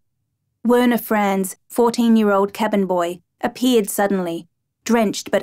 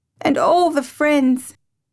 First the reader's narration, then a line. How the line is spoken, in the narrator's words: sobbed